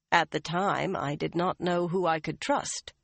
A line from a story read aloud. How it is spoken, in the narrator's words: Swan said smoothly